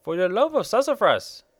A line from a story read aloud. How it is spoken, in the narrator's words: exclaimed a peculiar person